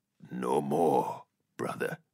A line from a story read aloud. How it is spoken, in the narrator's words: he said quietly